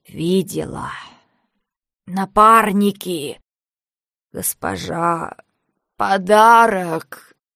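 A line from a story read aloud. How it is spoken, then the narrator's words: Hoarse, word by word. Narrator (Russian): Знахарка хрипела, выдавливая из себя по одному слову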